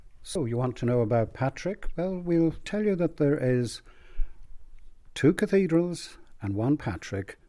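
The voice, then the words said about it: Dublin Irish accent. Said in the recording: “as can probably be detected from my accent, originally from Dublin”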